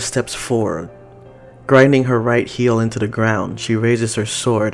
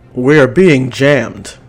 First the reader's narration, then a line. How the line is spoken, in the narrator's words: Jonathan yells through the comm